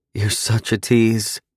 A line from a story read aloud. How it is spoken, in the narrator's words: she moaned